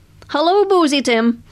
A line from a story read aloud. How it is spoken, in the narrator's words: she called out to him